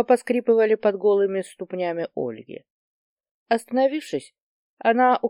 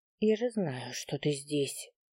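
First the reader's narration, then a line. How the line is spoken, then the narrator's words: Barely audible. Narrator (Russian): едва слышно произнесла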